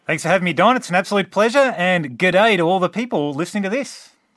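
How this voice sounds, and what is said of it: Australian accent. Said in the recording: “You'll have to forgive my Australian accent”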